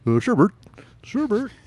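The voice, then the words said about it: Ernie puppet character voice. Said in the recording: “Do the voices ... I can do Ernie all right.”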